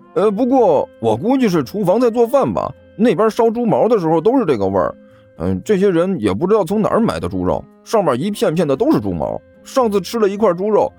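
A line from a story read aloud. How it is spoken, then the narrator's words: Laughing. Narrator (Chinese): 男孩随即笑道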